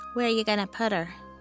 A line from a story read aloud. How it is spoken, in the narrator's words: Jeffrey sighed